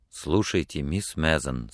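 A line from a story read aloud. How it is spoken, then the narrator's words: Quiet, trembling with emotion. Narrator (Russian): сказал он тихо, и голос его дрожал от волнения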